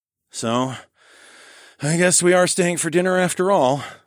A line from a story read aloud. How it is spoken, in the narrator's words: I sighed